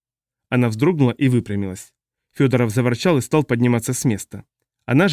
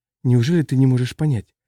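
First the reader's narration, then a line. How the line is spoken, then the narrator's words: Pleading. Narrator (Russian): взмолилась она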